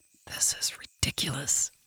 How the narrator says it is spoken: she whispered to herself

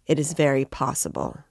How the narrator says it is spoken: answered Raskolnikov coldly

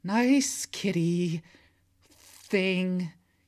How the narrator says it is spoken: he pleads

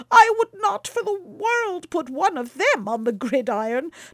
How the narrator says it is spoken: cried Baucis, shuddering

